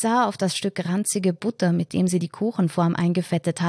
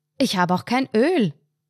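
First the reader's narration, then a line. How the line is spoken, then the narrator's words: Blurted loudly. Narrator (German): entfuhr laut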